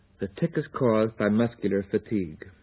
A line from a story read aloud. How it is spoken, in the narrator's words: Pennypacker impatiently snapped